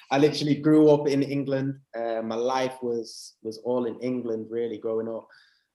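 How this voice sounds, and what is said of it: English accent. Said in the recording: “I've got an English accent.”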